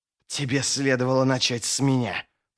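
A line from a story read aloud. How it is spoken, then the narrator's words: Opponent's hiss. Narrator (Russian): прошипел противник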